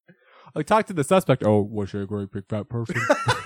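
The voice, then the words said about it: Imitates another person's weird voice. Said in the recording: “He talks like that too in Monk. It's so crazy weird. He's got that fucking weird voice.”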